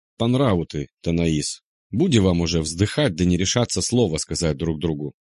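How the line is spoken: Plain. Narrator (Russian): сказала рыжая

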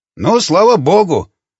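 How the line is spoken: Snorting hmph. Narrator (Russian): хмыкнул Жуковский

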